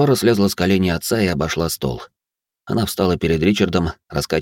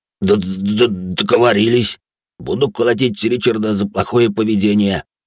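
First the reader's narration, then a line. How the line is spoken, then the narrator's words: Deep bass voice. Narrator (Russian): пробасил Громила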